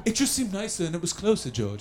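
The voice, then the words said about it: Imitates another person's voice, Beatles-like British. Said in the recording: “That's my Tony Blair impression. It's pretty good. Yeah. I know it sounds a lot like he's in the Beatles”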